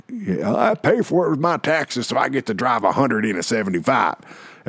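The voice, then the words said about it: Put-on Texan accent. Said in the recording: “I do it in that accent because most of them were in Texas”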